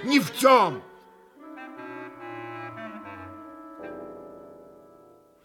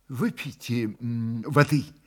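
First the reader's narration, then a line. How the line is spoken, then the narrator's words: Soft, repeated. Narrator (Russian): мягко повторил в десятый раз следователь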